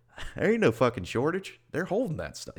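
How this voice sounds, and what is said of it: Put-on Southern US accent. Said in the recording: “every trucker has a southern accent”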